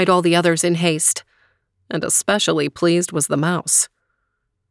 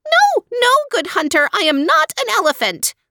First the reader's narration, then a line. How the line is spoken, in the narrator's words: squealed the mouse